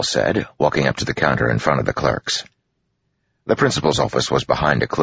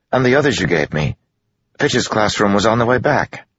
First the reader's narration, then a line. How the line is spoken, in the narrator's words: Joel said quickly